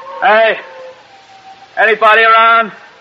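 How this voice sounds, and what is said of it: Yelling loudly. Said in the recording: “You're yelling right into the wind.”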